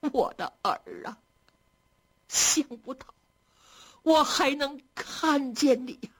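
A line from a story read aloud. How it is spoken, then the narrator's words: Wailing, sobbing. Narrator (Chinese): 嚎啕大哭起来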